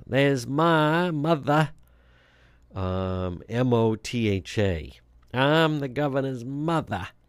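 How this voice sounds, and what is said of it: Put-on New England Kennedy-style accent. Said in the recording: “it's kind of like the old Kennedy accent... it sounds like the Bar Harbor, Maine type, a Ted Kennedy type accent. Maybe like it's the New England Irish Catholic”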